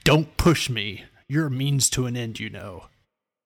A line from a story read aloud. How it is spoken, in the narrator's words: Tandros snarled